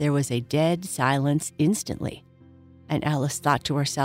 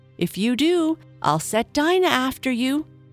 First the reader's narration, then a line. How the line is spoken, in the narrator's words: Alice called out as loud as she could